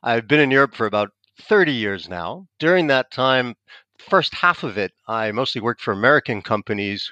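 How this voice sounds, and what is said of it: American English accent. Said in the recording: “I'm American. You probably tell from my accent.”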